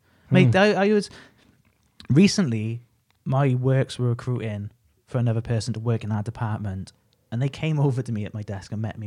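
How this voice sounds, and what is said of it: Broad Welsh accent. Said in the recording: “your relatively broad Welsh accent ... your accent's not as bad as they mentioned”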